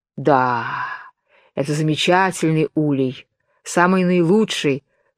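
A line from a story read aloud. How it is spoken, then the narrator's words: Sighing. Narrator (Russian): вздохнул конник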